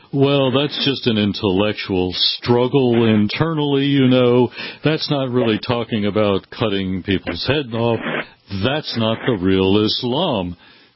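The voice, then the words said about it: Impression of John Kerry. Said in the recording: “I'm trying to imitate John Kerry, but I don't have a Boston accent.”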